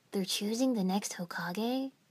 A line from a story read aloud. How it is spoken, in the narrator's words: Naruto asked quietly